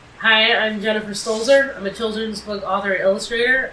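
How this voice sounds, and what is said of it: Slightly congested voice from a cold. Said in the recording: “I have a little bit of a cold. If you can hear that on the microphone”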